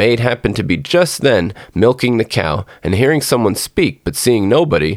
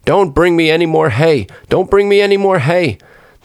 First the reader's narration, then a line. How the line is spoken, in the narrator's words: he cried out as loud as he could